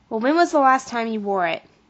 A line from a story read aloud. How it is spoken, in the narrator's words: asked Mom